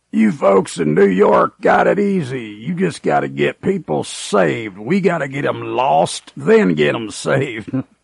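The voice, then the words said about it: Imitated gravelly Southern accent. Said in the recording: “in his gravelly Southern accent ... That's a pretty good imitation there, too.”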